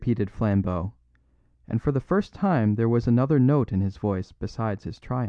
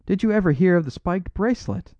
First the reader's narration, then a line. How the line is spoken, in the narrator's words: cried Flambeau